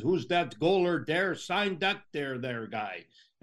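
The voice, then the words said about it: Imitated French-Canadian accent, Rogie Vachon. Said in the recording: “Rogie Vachon, in his, you know, French-Canadian accent”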